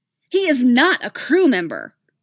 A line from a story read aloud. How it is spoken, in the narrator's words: she snapped